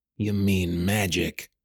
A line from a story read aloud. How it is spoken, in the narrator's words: Callum spat out the word like poison